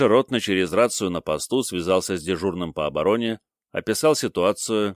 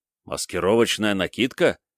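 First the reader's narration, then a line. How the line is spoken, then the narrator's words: Exclaimed. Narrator (Russian): воскликнул ротный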